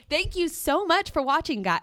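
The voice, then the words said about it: Mock radio DJ voice. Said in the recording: “your impersonation of a radio voice? You know, like how people go into their radio voice? ... open up the chest ... I was going to go like straight up like. ... Like 92 Pro FM ... Can you tell I'm not made for radio?”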